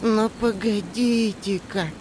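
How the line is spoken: Doubtful drawl. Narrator (Russian): протянул вдруг сомнение Мола

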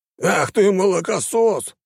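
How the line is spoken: Man's growl. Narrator (Russian): зарычал мужчина

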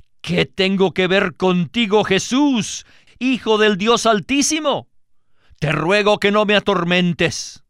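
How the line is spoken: Loud crying out. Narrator (Spanish): lanzó un gran grito, y postrándose a sus pies, exclamó a gran voz

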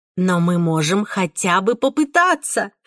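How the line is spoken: Heated exclamation. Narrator (Russian): вскричала я с такой горячностью

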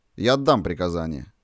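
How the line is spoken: Very cold reply. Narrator (Russian): ответил очень холодно

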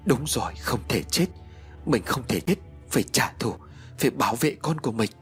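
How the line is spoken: Woman muttering. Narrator (Vietnamese): Cô lẩm bẩm

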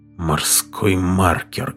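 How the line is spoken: Muffled, hollow voice. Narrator (Russian): глухо произнес Дженкинс

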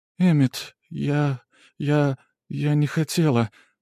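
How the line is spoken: Trembling voice. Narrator (Russian): дрожащим голосом произнесла арахнитка

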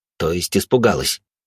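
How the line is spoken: Smirking grunt. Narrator (Russian): хмыкнул я

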